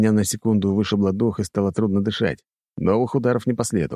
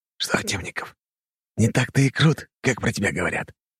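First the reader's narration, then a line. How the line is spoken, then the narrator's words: Hissing. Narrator (Russian): прошипел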